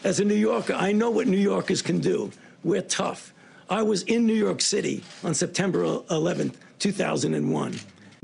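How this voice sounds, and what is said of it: New York accent. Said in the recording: “as a New Yorker myself, for those of you who haven't figured out from my accent that I'm from New York”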